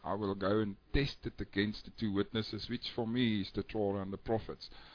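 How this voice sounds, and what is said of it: South African accent, Australian-sounding. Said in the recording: “Love your accent. I couldn't quite place it. Sounds almost Australian, but also maybe a little bit of Hebrew. ... Maybe a little Israeli there. ... South African.”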